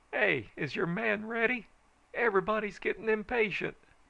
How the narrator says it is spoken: hollered

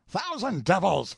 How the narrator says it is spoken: screamed Cochon in a fury

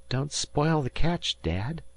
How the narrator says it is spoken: Dan murmured

